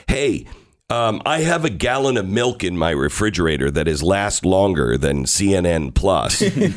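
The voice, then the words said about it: Voice affected by allergies. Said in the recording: “apologize for my voice, but it's the allergy season”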